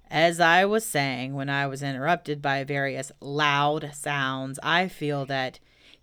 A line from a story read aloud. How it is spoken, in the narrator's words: said Eeyore loudly and sternly